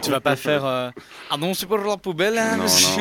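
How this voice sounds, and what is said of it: Put-on regional French accent. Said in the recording (French): “Ils ont tous un accent comme ça”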